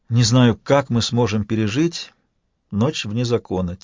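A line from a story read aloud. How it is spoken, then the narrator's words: Quiet. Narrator (Russian): тихо добавила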